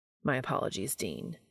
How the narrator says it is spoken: Castiel mutters

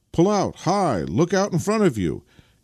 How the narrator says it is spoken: came in a chorus of shouts from this vehicle

